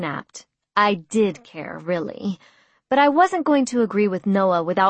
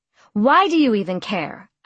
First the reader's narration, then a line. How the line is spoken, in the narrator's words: I snapped